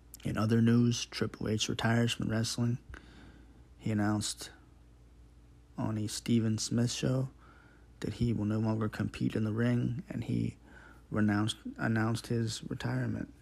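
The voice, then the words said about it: Raspy, hoarse voice. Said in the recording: “my throat sounds a little raspy tonight ... I might be sounding a little raspy”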